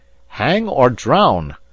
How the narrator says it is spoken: putting his hands to his mouth, and his mouth to my ear, he shouted

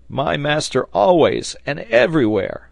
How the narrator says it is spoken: cried Neb

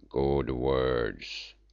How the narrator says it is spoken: grunted Umslopogaas

